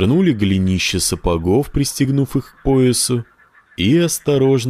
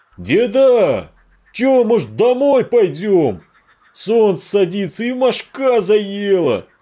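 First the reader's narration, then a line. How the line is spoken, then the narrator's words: Shouting. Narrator (Russian): крикнул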